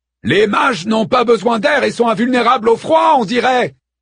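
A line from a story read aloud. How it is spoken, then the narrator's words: Shouted. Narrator (French): cria-t-il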